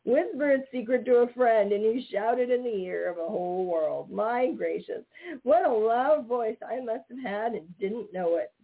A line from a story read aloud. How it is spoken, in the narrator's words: said Johnny Chuck, wiping the tears of laughter from his eyes